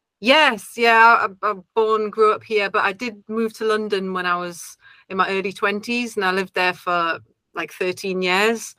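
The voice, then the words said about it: Mild Geordie accent. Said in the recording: “my accent's not as strong as it maybe once was... it's a little bit diluted, but now and again it gets a bit Geordie... I could hear that in your voice”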